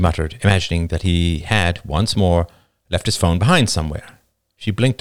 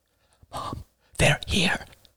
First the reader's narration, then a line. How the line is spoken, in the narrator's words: whispered Alice